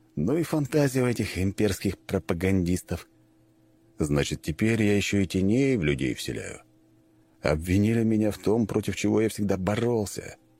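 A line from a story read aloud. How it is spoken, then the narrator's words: Plain. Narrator (Russian): сказал Панкратов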